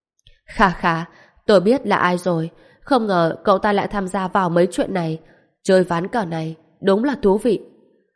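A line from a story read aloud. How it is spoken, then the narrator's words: Cold mocking. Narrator (Vietnamese): Quý Tốn đột nhiên giật mình, sắc lạnh nơi khóe mắt càng thêm nồng đậm, sau đó chế nhạo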